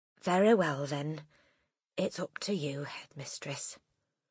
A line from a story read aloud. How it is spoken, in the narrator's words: She said softly